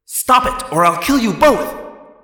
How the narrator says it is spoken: Alarond yelled

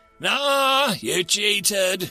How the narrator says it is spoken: Callum slurred

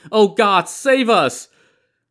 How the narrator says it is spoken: They were all shouting

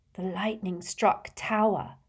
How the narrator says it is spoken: she whispered

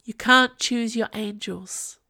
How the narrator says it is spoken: said Lavilla

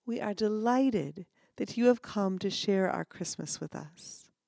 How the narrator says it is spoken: tenderly kissed the child on the forehead and whispered

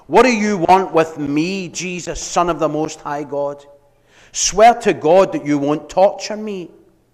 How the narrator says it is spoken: he shouted at the top of his voice

